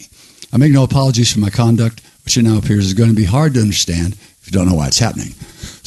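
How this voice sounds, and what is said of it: Weak, not fully recovered voice. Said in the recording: “my voice is still not quite back”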